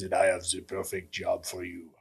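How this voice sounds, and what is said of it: Imitates another person's voice. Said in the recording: “good Michelle Roland impression”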